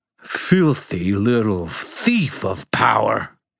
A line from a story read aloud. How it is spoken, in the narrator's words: Ethneu snarled